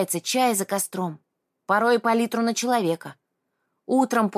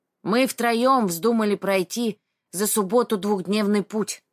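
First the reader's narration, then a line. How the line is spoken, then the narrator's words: Deep muffled gangster bass. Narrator (Russian): начал Николай своим глухим басом, который идеально подошел бы для озвучки сицилианских мафиози и паханов на зоне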